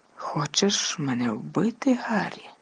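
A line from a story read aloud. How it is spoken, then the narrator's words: Whisper. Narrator (Ukrainian): прошепотів він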